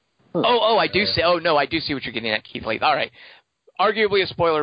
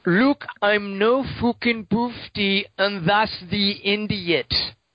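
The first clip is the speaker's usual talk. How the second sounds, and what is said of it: Put-on character accent. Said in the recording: “Keith Leith wants me to do the accent.”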